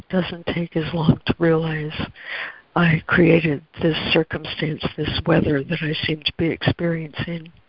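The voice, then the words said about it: Hoarse voice. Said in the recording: “Sorry, I'm really hoarse today.”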